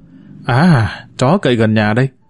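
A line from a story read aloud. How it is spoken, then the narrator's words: Deflated mutter. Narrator (Vietnamese): Tôi cột hứng lẩm bẩm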